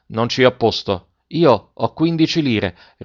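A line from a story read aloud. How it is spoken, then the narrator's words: Pleading boy. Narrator (Italian): rispose il ragazzo supplichevole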